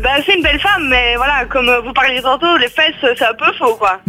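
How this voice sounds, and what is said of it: Belgian Liège regional accent. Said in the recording (French): “t'as un accent, t'as fait une rechute à un coup ... c'est quand même un peu près de Liège”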